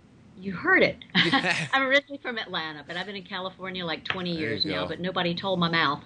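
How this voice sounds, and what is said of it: Southern American twang. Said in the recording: “You got a very nice southern twang. ... that accent just calms me right down.”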